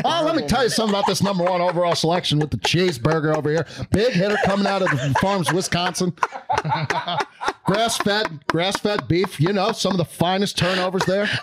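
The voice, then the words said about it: Imitates another person's voice. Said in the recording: “it's my favorite impression you do, is I heard Kuiper there for a little bit.”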